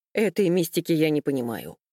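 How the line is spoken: Sharp. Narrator (Russian): резко сказал Михаил

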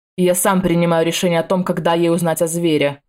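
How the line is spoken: Growled. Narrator (Russian): прорычал мужчина

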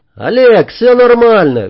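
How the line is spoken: Cheerful shout. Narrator (Russian): весело прокричал Игорь

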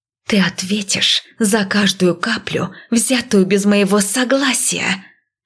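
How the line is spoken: Strange hissing. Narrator (Russian): Опять это странное шипение

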